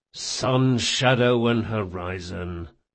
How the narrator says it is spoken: muttered Locke

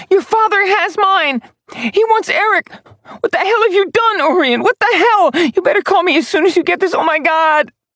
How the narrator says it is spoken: Phoebe's hysterical screaming

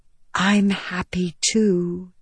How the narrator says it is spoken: Venli whispered

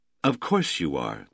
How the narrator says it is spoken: Damian said gently

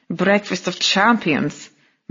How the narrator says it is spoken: muttered Vera

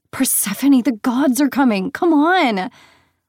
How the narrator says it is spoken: Lexa gasped

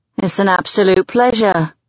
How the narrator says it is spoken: he drawls

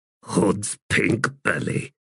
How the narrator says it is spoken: Deadsmell muttered

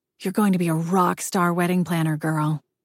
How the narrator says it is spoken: Jessica whispers

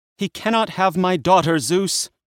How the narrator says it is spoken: she cried

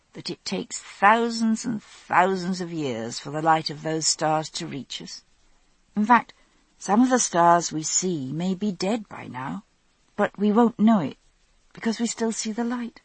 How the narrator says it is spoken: I said drowsily

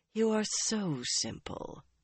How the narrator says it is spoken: Mogadine murmured

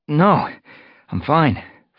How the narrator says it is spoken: Fireheart gasped

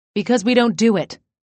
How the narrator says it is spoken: she snapped

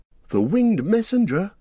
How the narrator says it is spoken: cried Legolas

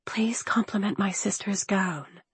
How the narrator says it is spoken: I whispered

